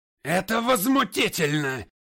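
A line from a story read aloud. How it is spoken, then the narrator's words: Yelling. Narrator (Russian): орал Пратт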